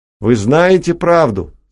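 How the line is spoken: Tense shout. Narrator (Russian): закричал, и скулы его окаменели

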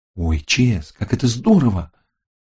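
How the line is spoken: Excited exclamation. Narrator (Russian): воскликнула она

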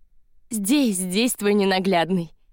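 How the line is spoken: Laughing. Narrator (Russian): смеялась Полина Андреевна

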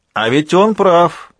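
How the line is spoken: Shouted from below. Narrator (Russian): прокричал снизу Майкл

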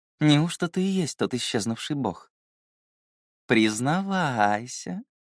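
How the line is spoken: Sly drawl. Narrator (Russian): протянула она, лукаво прищурившись

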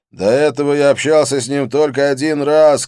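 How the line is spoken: Shouted reply. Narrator (Russian): крикнул в ответ

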